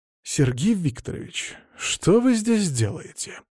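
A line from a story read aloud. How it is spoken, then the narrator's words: Through gritted teeth. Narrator (Russian): процедил Веня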